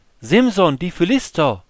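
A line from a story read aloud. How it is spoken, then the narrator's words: Calling out again. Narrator (German): rief sie wieder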